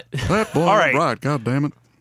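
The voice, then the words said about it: Hank Hill impression. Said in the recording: “That's my Hank Hill impersonation.”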